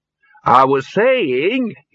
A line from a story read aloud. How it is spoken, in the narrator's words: he said loudly